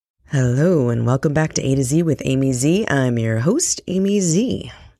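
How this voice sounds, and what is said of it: Husky congested voice from a cold. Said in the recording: “You like my sexy, I've got a cold voice? ... the phlegm in my throat ... with the runny nose”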